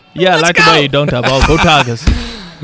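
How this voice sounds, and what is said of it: Put-on Cajun accent. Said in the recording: “is this the Cajun accent?”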